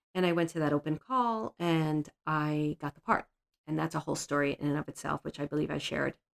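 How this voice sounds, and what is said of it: Brooklyn accent. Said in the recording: “If you think I have a Brooklyn accent now”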